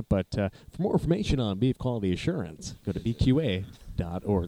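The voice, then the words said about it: Announcer-style radio voice. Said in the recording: “That's my radio voice”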